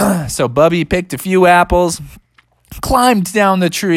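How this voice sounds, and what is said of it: Usual voice. Nothing is said of it.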